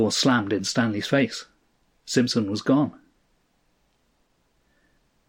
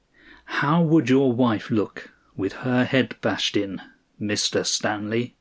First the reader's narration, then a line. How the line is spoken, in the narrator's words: he said the next words very slowly